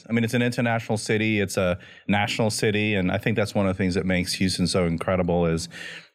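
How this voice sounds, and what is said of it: Cajun accent. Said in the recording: “You got that Cajun accent ... Completely Cajun accent.”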